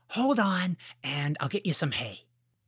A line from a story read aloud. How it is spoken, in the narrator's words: George whispered